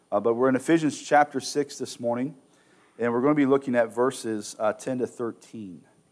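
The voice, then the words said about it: Voice rough from a cold. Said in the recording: “You have to excuse my voice. I'm getting over a little bit of a cold.”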